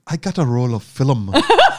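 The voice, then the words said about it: Put-on Irish accent. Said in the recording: “Can I do the accent? ... You can only do the accent ... Irish”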